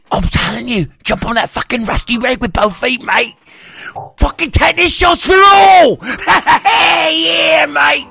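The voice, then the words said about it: Put-on British accent. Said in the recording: “a British accent”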